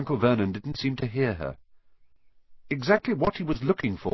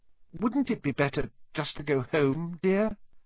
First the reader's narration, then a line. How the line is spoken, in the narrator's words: Aunt Petunia suggested timidly